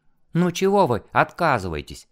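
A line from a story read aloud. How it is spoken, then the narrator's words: Woman laughing cheerfully. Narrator (Russian): весело рассмеялась женщина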